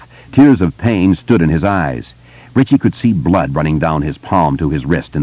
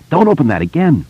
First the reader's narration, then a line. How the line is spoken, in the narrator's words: cried, frantically